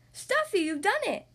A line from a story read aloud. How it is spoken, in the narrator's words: Doc cried